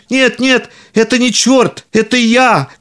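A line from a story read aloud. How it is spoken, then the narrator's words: Shouting. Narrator (Russian): кричал Пономарь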